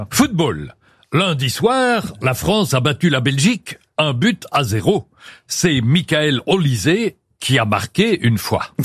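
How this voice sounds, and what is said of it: Put-on Belgian French accent. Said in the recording (French): “avec l'accent belge”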